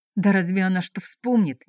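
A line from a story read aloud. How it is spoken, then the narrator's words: Displeased eager question. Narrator (Russian): недовольно вопросил не в меру разохотившийся Кравчук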